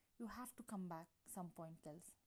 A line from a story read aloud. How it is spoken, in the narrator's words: Logan says angrily